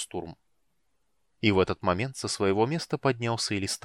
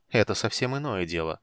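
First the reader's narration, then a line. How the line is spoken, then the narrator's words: Calm reply. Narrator (Russian): спокойно отозвался Рейслин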